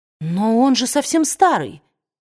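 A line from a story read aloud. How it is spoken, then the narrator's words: Exclaimed. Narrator (Russian): воскликнула Скарлетт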